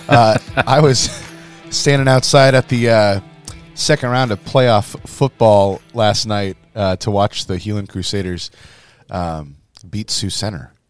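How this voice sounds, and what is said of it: Hoarse, foggy voice. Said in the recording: “I've got a hoarse voice ... a little ... Foggy this morning ... bar voice in the musician world”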